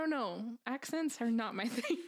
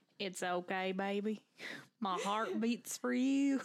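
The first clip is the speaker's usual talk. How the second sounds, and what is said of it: Put-on southern accent. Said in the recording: “Was that your southern accent? ... That's better.”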